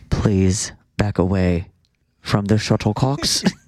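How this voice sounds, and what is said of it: Put-on English accent. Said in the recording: “It's a British accent, I believe. ... It's an English accent”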